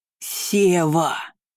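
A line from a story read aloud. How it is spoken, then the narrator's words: Thunderous, mountain-shaking shout. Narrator (Russian): Крик прокатился по воздуху, сотрясая горы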